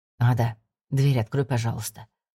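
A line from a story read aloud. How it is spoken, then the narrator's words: Quiet request. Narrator (Russian): тихо попросил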